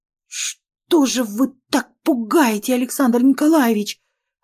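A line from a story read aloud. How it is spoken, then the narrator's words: Frightened stammer. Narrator (Russian): От испуга начала заикаться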